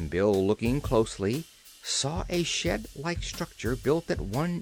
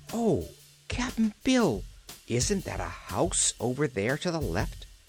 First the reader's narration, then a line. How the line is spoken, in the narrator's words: she exclaimed